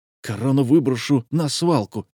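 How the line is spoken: Commandant's angry grumble. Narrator (Russian): сердито буркнул комендант

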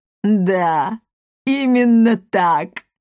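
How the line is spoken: Laughing plump woman. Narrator (Russian): расхохоталась толстушка

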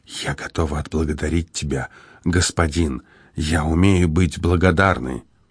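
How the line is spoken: Quiet reminder. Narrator (Russian): тихо напомнила

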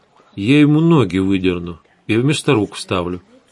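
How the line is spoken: Completely calm. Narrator (Russian): совершенно спокойно пообещала Светлана

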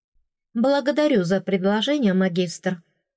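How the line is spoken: Calm. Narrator (Russian): спокойно сказала я

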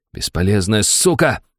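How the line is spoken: Through teeth, coughing blood. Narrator (Russian): харкая кровью, процедил Шуйский

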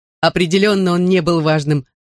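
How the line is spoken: Laughing. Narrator (Russian): засмеялась Лейла

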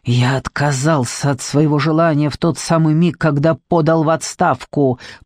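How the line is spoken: Hiss through teeth. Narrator (Russian): прошипел он сквозь зубы

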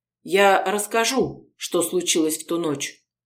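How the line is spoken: Calm reply. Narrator (Russian): спокойно ответила Полина

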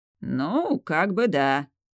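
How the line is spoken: Muttering. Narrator (Russian): пробурчал Арир

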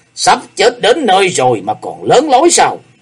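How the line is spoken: Roaring. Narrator (Vietnamese): Hải Ma giáo chủ gầm lên

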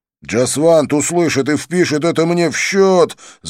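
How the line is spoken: Yelling over music. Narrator (Russian): заорал я, стараясь перекричать музыку

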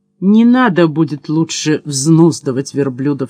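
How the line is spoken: Plain. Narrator (Russian): сказал я ему

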